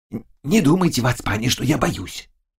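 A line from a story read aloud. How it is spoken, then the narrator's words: Whisper. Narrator (Russian): шептал Заглоба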